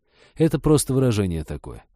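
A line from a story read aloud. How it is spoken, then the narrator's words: Sighed. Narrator (Russian): вздохнул Женька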